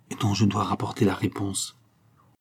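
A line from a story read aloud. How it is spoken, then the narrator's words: Said quietly. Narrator (French): dit Zampa tout bas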